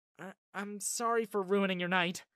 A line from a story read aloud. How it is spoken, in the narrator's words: she blurted out